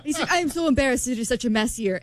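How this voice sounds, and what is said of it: Put-on Argentinian accent. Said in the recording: “Argentinian accent... my accent”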